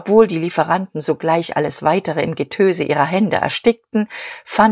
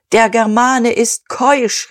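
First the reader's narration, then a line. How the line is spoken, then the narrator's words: Shouted. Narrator (German): rief Dieterich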